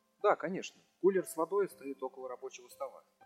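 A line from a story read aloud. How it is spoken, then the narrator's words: Muttered. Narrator (Russian): пробормотал я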